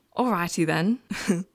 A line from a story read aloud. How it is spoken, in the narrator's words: Barry laughed